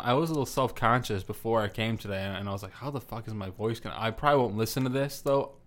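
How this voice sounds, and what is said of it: Congested voice from a cold. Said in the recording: “I have a cold. Love the way my voice sounds when I have a cold.”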